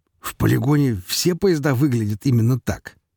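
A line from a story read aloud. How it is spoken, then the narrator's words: Question, then doglike laughter. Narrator (Russian): спрашивает Горемыка и начинает смеяться заливистым собачьим смехом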